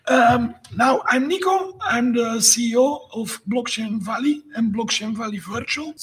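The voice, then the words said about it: Hoarse, weakened voice. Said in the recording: “if you're wondering where my voice is, my wife sold it as an NFT, so it's somewhere floating on the blockchain”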